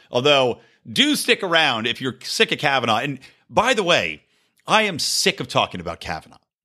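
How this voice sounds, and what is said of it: Philadelphia accent. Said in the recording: “my stupid half-Philly accent that still hasn't gone away”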